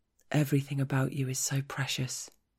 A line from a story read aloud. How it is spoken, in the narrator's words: he murmurs